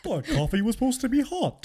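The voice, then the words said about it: Funny cartoonish character voice. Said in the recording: “Who'd you sound like right there? ... Was that a little Hank Hill? ... just doing a funny voice”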